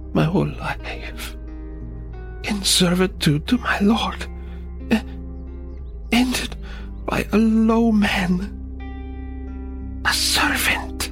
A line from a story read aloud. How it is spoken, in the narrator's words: In a weak voice, he said